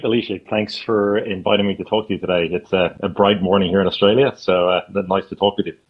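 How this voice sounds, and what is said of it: Slight Irish accent. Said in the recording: “there's still a little bit of Irish accent in how I speak”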